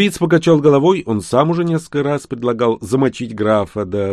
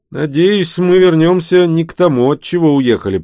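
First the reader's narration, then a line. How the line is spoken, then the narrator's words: Grumbling. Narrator (Russian): пробурчал я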